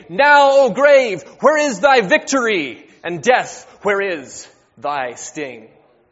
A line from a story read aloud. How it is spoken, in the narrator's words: shouting